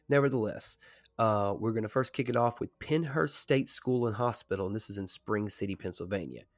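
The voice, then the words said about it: Slightly off, congested-sounding voice. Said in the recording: “my voice sounds a little weird ... I'm kind of getting over the head cold, allergies”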